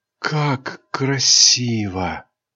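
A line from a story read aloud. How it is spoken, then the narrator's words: Whisper. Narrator (Russian): прошептала Айрин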